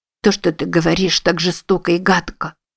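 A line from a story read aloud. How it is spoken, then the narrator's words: Sobbing. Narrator (Russian): всхлипнула Мари-Луиза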